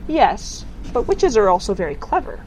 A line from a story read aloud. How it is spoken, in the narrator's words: said Tiffany calmly